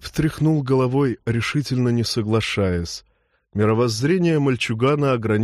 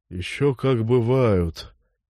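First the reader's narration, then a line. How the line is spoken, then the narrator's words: Old man sighing. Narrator (Russian): вздохнул старик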